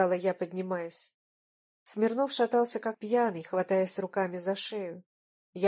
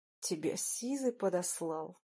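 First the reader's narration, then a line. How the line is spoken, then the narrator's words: Hoarse rasp. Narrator (Russian): прохрипел Ленчик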